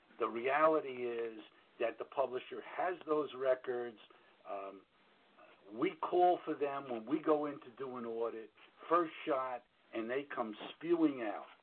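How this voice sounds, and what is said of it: New York accent. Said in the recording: “you hear both my New York voice and my New York accent”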